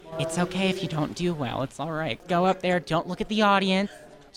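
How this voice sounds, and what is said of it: Imitates his mother's voice. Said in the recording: “his imitation of his mom”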